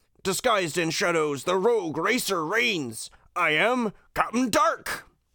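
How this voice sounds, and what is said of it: Cartoon villain Pete character voice. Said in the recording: “Do you do a good Pete voice? ... you got the intonation down, yeah.”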